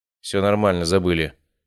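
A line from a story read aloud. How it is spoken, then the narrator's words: Grumbling mutter. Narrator (Russian): буркнул я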